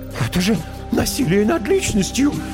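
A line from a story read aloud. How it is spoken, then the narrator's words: Timid squeak. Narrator (Russian): пискнул было тот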